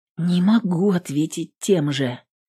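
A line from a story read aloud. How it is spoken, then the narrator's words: Quiet speech. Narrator (Russian): тихо проговорила Эвелин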